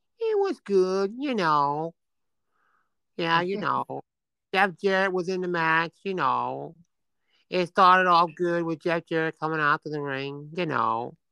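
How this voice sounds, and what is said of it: Imitates another person's voice. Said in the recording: “my impersonation of Jerry Jarrett”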